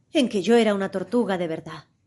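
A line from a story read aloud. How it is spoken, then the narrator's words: Deep sighing speech. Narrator (Spanish): dijo por fin la falsa tortuga con un profundo suspiro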